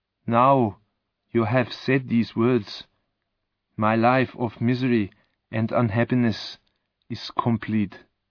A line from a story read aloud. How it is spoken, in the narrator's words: said the monster sadly